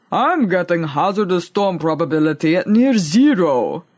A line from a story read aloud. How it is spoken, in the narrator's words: he rumbled in reply